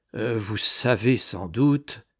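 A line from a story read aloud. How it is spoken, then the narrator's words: Low voice. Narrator (French): dit du Châtelet à voix basse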